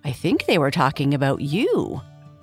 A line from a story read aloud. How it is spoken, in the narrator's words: went on Butterwops, quite coolly, as though he was talking about the weather